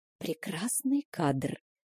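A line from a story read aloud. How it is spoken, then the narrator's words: Conspiratorial whisper. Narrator (Russian): заговорщицки шепнула мне Стеси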